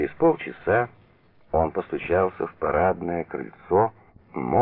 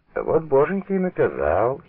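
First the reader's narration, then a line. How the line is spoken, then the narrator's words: Giggling. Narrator (Russian): хихикнул лакричник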